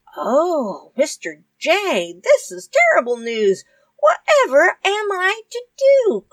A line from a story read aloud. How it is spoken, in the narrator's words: cried Paddy